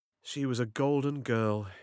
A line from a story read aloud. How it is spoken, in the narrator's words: he said